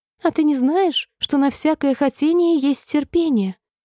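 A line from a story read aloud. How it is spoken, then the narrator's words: Tiny squeaky voice, close. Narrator (Russian): пропищал тонюсенький голосок прямо ей в ухо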